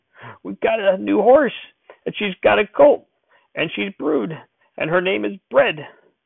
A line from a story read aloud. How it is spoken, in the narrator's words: In between gasps, he was hollering